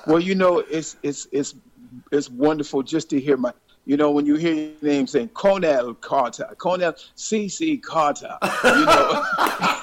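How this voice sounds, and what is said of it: Attempted posh London accent. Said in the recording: “do an impersonation of a London Cockney? Can you say something to us in a London accent? ... That was a posh London”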